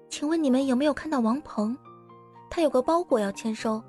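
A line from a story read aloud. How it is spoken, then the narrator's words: Receptionist asking quietly. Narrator (Chinese): 前台小姐小声的询问着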